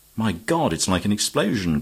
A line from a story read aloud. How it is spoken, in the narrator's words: cried Sir Walter